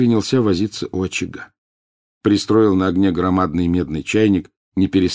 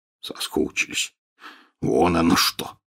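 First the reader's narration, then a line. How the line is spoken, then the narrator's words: Snort. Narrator (Russian): хмыкнул Хагрид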